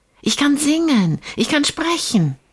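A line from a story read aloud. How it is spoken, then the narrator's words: Called from far away. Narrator (German): rief sie schon von weit her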